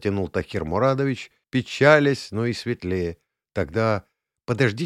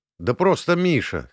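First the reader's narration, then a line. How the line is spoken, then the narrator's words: Smirking. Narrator (Russian): хмыкнул я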